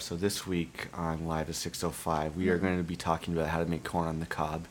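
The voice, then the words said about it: Monotone radio-host delivery. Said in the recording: “I'm doing my NPR ... Monotone”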